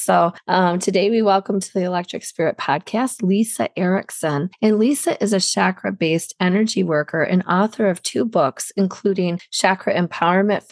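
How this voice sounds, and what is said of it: Hoarse, strained voice. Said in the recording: “I'm kind of losing my voice. I've been sick”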